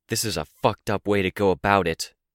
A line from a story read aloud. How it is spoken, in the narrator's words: I growled the words, adding my anger to Capricorn's